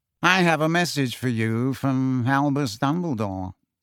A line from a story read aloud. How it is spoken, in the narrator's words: Phineas Nigellus said lazily